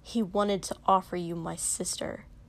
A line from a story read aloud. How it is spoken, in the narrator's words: Shoto said coldly